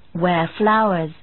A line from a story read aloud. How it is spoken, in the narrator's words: her husband replied